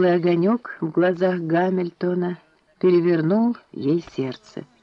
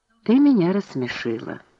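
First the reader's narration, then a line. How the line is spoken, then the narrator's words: Said quietly. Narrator (Russian): тихо сказал Гай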